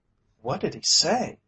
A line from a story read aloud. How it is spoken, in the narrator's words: asked, eagerly